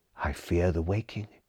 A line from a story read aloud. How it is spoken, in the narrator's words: he murmured